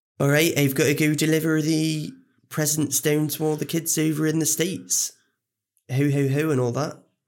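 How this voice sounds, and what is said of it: Put-on Bristolian accent. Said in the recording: “a Bristolian Santa ... a Bristolian accent”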